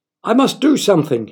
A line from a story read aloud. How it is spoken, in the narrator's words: he cried